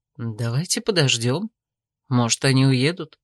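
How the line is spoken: Quiet suggestion. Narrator (Russian): тихо предложил Томин

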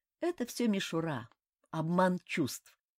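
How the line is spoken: Calm. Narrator (Russian): спокойно сказал Рэй

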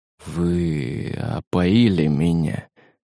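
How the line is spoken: Bitter whisper. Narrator (Russian): прошептал он, с горечью

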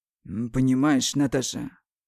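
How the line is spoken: Calm. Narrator (Russian): спокойно произносит Марат, включая практически забытого яда

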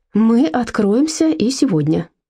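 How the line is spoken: Calm. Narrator (Russian): спокойно сказал Герр Фишер

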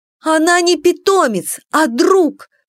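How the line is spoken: Tearful shout. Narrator (Russian): выкрикнула я, глядя на Бастио сквозь застилающие глаза слезы

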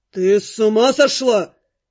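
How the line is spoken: Growl. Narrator (Russian): прорычал

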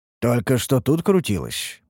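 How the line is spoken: Mutter. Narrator (Russian): пробормотал Ерджун

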